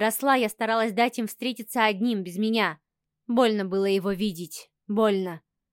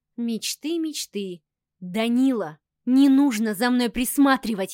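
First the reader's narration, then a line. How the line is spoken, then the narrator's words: Growling. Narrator (Russian): я зарычала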